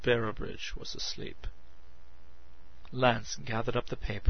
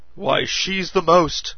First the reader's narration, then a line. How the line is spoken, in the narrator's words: Shocked, Lance cried